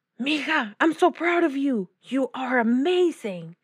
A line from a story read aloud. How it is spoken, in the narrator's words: exclaimed her tío